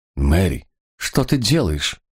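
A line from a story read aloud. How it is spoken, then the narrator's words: Young man, confused, teary. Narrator (Russian): растерянно спросил юноша, вытирая слезки в уголках глаз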